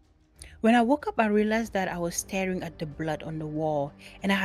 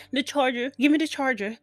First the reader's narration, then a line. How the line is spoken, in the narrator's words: she says frantically